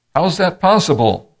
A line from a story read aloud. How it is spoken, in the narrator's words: A young skeptic in the audience shouted